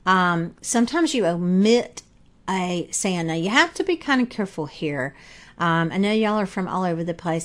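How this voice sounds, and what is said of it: Southern US accent. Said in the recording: “I'm from the South, as you can probably tell from my voice, but in the South, we drop the G's a lot”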